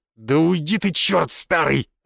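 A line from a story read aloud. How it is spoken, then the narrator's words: Growl. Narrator (Russian): зарычал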